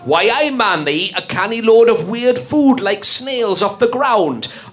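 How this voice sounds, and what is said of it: Put-on northeast English accent. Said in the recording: “I'd of course be using a northeastern accent”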